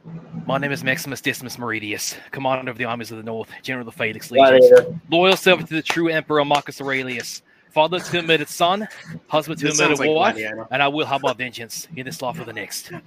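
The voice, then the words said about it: Put-on Australian accent. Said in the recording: “a pretty good Australian accent ... I do it so perfectly”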